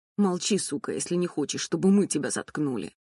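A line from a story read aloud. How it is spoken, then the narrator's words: Growled by bald man. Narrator (Russian): Прорычал лысый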